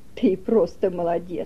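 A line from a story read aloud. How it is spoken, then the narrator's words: Praising. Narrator (Russian): хвалила она Тома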